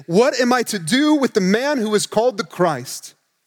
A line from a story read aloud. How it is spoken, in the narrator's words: Exhausted and confused, Pilate pleaded again